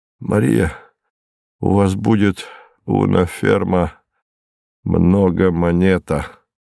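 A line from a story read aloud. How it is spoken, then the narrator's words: Grateful mumble. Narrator (Russian): Исполненный благодарности, он пробормотал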